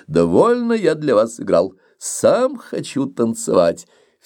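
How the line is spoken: Laughing, in French. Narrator (Russian): Барон, смеясь, сказал по-французски

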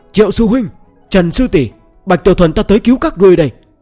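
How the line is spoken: Bold loud shout. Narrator (Vietnamese): hắn cảm thấy sẽ có kẻ cho rằng mình sợ, nên lập tức hét lớn

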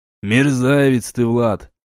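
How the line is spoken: Grumbling. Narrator (Russian): пробурчал папа Мю

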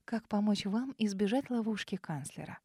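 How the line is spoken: Soft, smiling. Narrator (Russian): Мягко улыбнулась Ауриния

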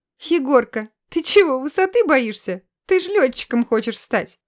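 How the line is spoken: Girls laughing, teasing. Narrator (Russian): Засмеялись девчонки

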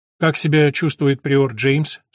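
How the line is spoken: Plain. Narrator (Russian): спросил Филипп

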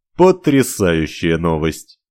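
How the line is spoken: Snorting. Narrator (Russian): хмыкнул он

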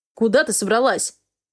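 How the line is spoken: Growling. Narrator (Russian): рычал Хартман

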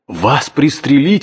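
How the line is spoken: Exclaiming. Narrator (Russian): воскликнул я

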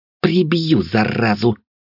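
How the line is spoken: Growling. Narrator (Russian): прорычала Вилея

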